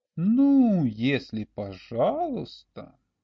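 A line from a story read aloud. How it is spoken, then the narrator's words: Drawling, pondering. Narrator (Russian): протянул Олег, как бы раздумывая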